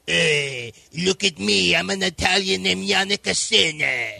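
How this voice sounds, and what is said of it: Unnatural put-on Italian accent. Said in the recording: “Do that in your Italian accent again. ... That didn't sound very natural”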